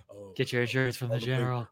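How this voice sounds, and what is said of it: Poor imitation of another person's voice. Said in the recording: “Terrible Shaq impression.”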